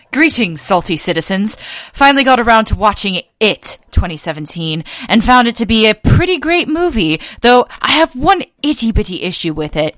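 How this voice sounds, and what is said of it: Put-on posh accent. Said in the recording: “I'm going to do it with the posh accent ... Do it with the posh accent.”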